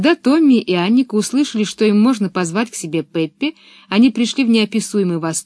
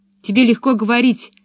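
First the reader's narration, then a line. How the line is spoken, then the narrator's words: Angry retort. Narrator (Russian): сердито возразила Пеппи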